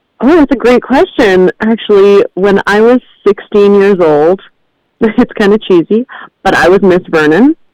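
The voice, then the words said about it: Good radio voice. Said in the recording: “You have such a good radio voice.”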